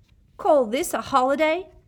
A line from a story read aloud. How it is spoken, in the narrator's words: Seamus Finnegan roared at the common room